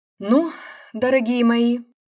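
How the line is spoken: Sigh. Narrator (Russian): вздохнул Шелков

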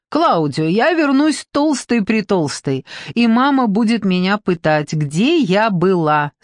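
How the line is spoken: Laughing. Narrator (Russian): смеясь сказала Даниэла

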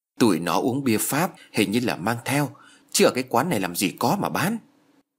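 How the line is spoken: Quiet murmur. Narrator (Vietnamese): nói khẽ

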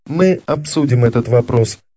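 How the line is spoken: Plain. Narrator (Russian): сказал Эдуард

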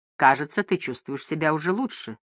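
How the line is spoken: Plain. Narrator (Russian): сказала Бетти

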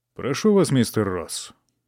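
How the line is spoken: Friendly yet formal. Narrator (Russian): произнес он дружелюбным, но все же довольно официальным тоном

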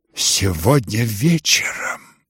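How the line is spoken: Despairing undertone. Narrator (Russian): как бы в отчаянии повторила вполголоса Нина Александровна

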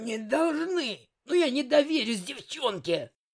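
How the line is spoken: Killer's hoarse rasp. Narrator (Russian): Прохрипел киллер

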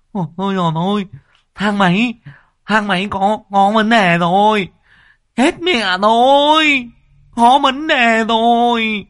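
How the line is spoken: Shouting. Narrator (Vietnamese): Thằng Tiểu Ngao hét lên

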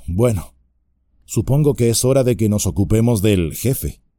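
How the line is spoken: Sighing. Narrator (Spanish): Frodo dijo con un suspiro

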